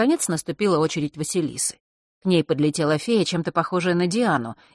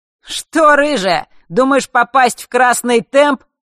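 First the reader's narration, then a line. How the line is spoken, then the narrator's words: Cheerful shout. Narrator (Russian): весело выкрикнул Марк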